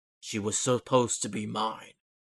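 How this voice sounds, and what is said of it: Weird echoing villain voice. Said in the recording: “you hear a weird voice echoing throughout the town”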